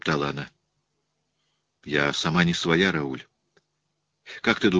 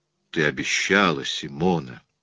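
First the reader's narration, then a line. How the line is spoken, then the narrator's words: Soft, gentle. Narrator (Russian): начал он мягко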